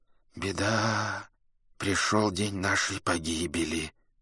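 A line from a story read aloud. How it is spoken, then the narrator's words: Crowd muttering. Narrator (Russian): забормотали люди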